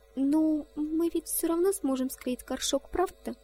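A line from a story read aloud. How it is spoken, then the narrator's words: Timid interjection. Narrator (Russian): Робко вставила сестренка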